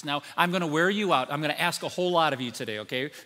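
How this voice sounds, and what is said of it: Sarcastic tone. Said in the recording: “being sarcastic.”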